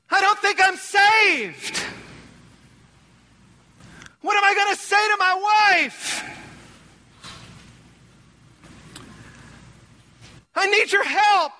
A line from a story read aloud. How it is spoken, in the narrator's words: screaming through the phone, totally devastated